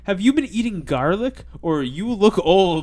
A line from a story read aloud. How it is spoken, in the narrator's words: shout